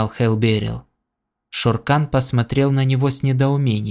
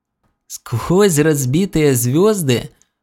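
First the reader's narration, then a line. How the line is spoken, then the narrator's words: Short laugh. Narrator (Russian): коротко хохотнул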